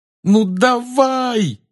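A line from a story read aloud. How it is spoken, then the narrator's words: Desperate yell. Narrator (Russian): отчаянно завопил он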